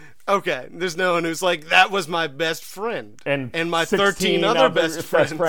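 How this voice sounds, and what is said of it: Usual voice. Nothing is said of it.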